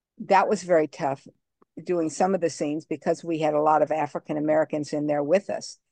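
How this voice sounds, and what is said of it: Southern US accent. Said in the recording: “I'm from the South and I have that Southern accent.”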